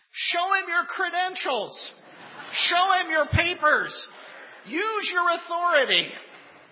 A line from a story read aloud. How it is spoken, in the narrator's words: the farmer yelled over the fence